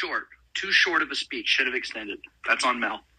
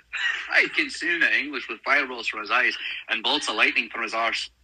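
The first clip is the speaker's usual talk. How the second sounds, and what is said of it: Put-on Scottish accent. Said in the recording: “you started doing the Braveheart Scottish accent.”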